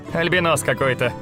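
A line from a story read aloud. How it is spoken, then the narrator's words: Chuckling man. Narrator (Russian): хохотнул щуплый темноволосый мужчина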